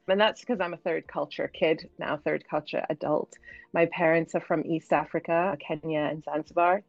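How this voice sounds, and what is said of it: British accent with hard-to-place mix. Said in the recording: “you might be able to hear from my accent, I'm British, but it sounds like British with a mix of something that people can never quite place”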